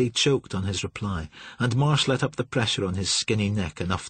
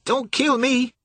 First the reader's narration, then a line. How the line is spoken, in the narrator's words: Billy said, his voice gone thin and shrill